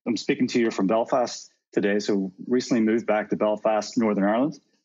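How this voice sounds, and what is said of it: Slight Northern Irish accent. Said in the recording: “Your accent comes out a little when you talk about Belfast ... I definitely have a twang and it comes and goes”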